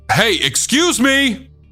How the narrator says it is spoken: loudly saying

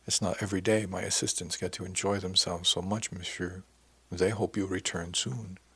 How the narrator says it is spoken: He smiled and added softly

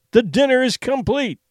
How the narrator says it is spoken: he cried

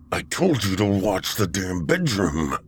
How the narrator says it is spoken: Tolliver growled from behind him

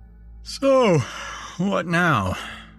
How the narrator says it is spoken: I said, yawning

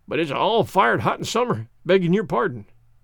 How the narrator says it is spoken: Skiffmiller laughed

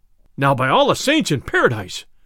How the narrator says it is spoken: cried the sheriff

